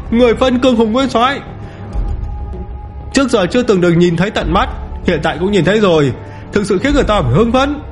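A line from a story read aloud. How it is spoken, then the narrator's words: Loud excited laughter. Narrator (Vietnamese): Chư thần cười lớn như là hưng phấn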